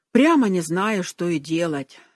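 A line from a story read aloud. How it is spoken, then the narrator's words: Heavy sighing. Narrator (Russian): сказал он и тяжело вздохнул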